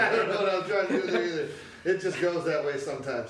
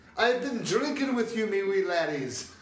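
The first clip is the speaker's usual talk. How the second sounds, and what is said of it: Goofy put-on accent. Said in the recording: “I don't know where that goofy uh, accent came from ... impersonations”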